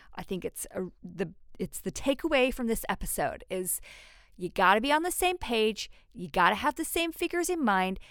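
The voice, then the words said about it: Put-on American accent, slipping. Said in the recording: “I lost it. I haven't done my American accent for a while ... I will improve the accent”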